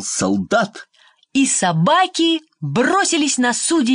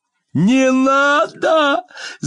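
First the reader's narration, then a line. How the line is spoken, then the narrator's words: King shouting. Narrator (Russian): закричал король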